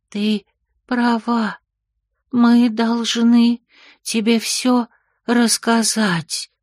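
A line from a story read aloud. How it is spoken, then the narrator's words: Slow, strained whisper. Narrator (Russian): медленно, с усилием прошептал он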